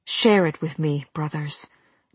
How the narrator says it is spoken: Nagiri breathed

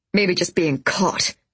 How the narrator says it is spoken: he said with a snort

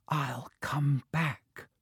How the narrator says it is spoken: whispered

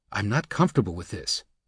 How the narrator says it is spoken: Min whispered

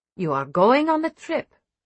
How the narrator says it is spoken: Vera says evenly

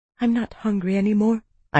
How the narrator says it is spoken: I whispered

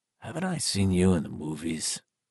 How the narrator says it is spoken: Tom Rogan whispered

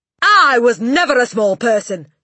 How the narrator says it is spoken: she snapped

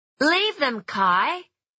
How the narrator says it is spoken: she shouted

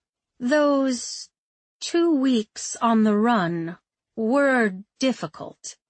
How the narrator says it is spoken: she said slowly, choosing each word carefully

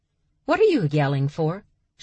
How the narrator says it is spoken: She asked calmly

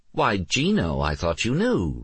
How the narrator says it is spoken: Renee said cheerfully

